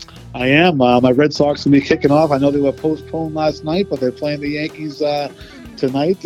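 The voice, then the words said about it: Boston accent. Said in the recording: “where did you grow up? ... Boston, Massachusetts ... I transplanted my accent down here”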